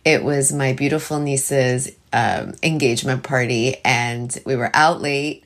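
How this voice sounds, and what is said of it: Tired voice. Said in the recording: “you can probably tell by my voice, I slept super late last night”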